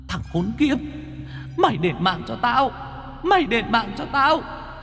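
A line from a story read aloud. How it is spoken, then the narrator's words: Ghostly shriek. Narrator (Vietnamese): Hồn quỷ bà Niềm rít lên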